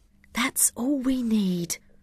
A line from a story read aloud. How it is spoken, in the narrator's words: Jenny whispered to Rav